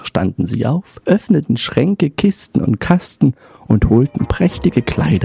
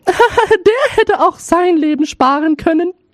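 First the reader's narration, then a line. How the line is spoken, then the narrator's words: Laughing eldest sister. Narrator (German): lachten, und die Älteste sprach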